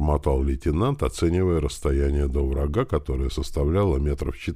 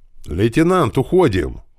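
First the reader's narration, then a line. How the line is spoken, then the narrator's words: Shouting driver. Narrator (Russian): кричал механик-водитель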